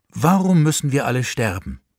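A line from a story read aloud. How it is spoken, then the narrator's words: Plain. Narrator (German): fragte der Mann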